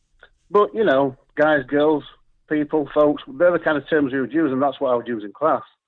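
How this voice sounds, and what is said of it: Broad Yorkshire accent. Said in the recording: “Speaking in a broad Yorkshire accent, as I do”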